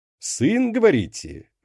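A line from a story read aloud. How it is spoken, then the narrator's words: Cheerful exclamation. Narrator (Russian): воскликнул он, явно пребывая в превосходном расположении духа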